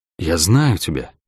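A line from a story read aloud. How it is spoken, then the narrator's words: Whisper. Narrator (Russian): прошептал акробат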